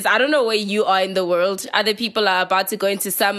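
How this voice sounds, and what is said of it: Voice sounds off from flu. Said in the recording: “my voice is doing some a little funny ... the flu has got me at the moment”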